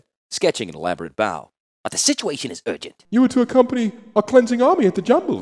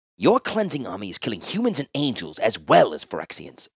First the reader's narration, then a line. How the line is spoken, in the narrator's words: Urza said urgently